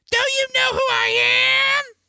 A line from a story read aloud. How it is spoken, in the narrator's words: a bystander yelled back